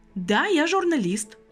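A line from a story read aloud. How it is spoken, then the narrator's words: Proud statement. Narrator (Russian): гордо произнесла Лена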